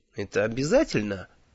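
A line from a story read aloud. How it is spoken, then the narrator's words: Unhappy asking. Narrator (Russian): несчастным голосом спросил я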